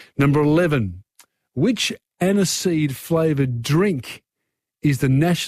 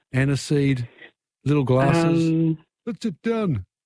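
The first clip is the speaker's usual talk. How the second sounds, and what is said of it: Bad put-on Greek accent. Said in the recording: “That's my Greek accent. That's terrible.”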